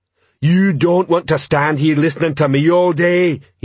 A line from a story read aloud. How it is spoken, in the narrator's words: bellowed